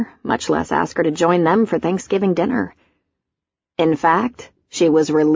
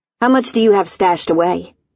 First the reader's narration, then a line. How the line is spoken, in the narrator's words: she asked, her voice hard